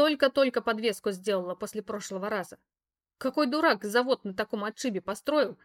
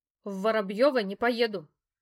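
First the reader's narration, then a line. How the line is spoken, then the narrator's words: Sharp refusal. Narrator (Russian): резко отказалась я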